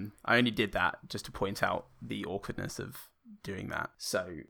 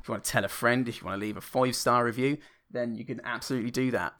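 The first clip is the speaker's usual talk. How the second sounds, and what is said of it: Put-on Irish accent. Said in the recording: “the condescending Irish accent that I just did”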